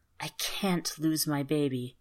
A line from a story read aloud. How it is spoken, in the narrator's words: whispered